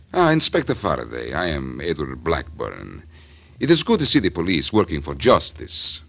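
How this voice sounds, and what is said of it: Put-on Central European accent. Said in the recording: “he talks with an accent ... Central European, maybe. ... Like this? ... that's pretty close.”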